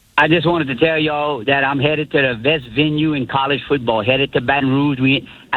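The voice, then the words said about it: Strong Louisiana Southern accent. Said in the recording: “I love that accent. ... That accent is amazing.”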